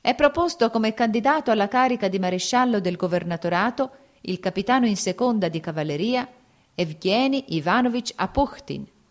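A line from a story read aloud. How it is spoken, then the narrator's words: Shrill loud proclamation. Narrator (Italian): con voce stridula e alta proclamava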